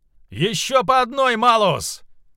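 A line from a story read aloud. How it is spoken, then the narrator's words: Shouted out. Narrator (Russian): выкрикнул завсегдатай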